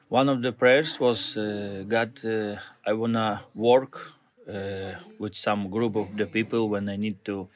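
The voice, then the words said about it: Slight Italian accent. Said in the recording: “you can hear a bit of Italian accent there”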